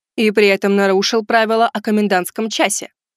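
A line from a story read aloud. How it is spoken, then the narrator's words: Stern declaration. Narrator (Russian): строго заявила Кинг Жао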